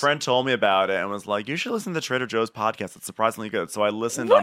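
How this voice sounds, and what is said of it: Usual voice. Nothing is said of it.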